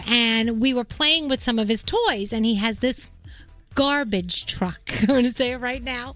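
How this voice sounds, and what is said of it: New York accent. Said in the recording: “I'm such a New Yorker. What an accent I got there.”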